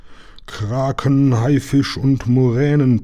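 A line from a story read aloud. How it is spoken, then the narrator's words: Captain blustering. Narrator (German): polterte der Hauptmann los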